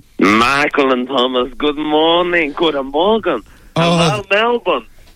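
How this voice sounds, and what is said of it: German accent. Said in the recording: “hailing from Berlin ... the German ... That accent gets me going early in the morning”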